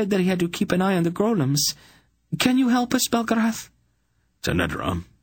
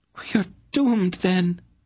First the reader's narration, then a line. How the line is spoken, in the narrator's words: Tanedra wailed